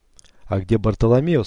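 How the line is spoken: Plain. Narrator (Russian): спросила она

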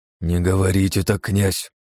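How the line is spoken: Hiss. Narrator (Russian): прошипел кардинал

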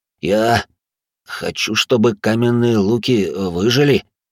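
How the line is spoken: Uncertain reply. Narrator (Russian): ответил он неуверенно

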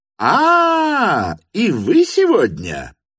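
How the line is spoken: Sudden cheerful shout. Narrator (Russian): крикнул он вдруг совсем другим, веселым голосом

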